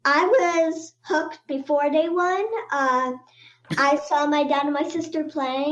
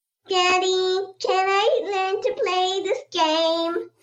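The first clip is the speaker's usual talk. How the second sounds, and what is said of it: Cute childlike voice. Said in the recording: “in a very cute voice ... That's very cute.”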